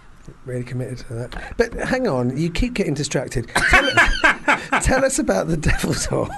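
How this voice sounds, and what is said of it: Usual voice. Nothing is said of it.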